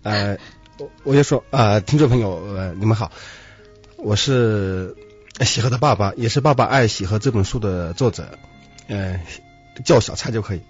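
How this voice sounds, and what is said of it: Hunan-accented, imperfect Mandarin. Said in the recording (Chinese): “口音听得出来哈，这个小蔡爸爸呢，嗯，是湖南人是吧？...所以普通话呢有点不那么太好，不是不好，是不那么太好啊”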